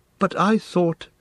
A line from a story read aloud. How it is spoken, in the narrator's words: he stammered